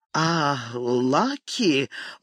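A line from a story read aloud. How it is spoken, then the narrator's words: Near stammering. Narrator (Russian): Мортон едва не заикался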